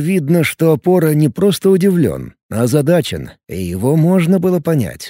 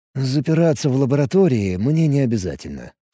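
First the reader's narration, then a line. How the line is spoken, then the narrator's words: Calm addition. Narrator (Russian): спокойно добавил он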